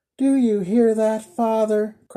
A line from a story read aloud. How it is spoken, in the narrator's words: cried the blind girl